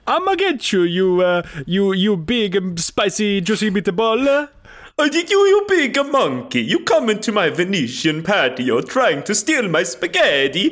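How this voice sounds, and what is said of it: Bad put-on Italian accent. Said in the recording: “you speak in a really, really bad Italian accent”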